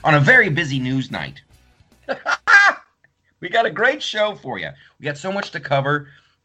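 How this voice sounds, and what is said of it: Imitates another person's voice. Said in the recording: “Here's a here's a little Sean Hannity for you. I'm working on my Sean Hannity impression”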